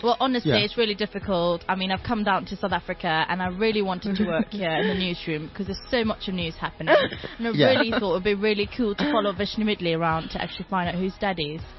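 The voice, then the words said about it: Put-on British accent. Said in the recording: “Do the accent ... There's a British journalist ... she's got this Indian-British background”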